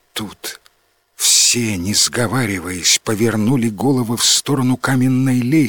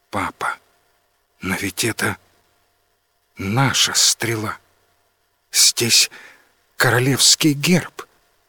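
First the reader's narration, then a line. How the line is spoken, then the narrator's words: Quiet. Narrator (Russian): тихо сказала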